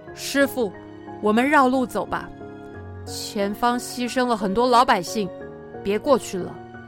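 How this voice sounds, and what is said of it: Quiet, dejected speaking. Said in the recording (Chinese): “悟空心情低落地跑回师父的身边， 小声地说”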